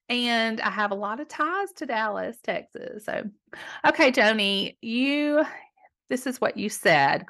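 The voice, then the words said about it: Southern American accent. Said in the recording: “We've got this wonderful Southern accent, don't we, ladies?”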